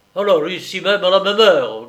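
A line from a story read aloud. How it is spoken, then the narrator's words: Grumbling officer. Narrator (French): grogna le major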